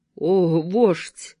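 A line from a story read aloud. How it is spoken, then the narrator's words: Female moan. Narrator (Russian): простонала она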